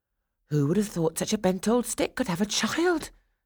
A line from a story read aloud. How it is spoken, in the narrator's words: exclaimed another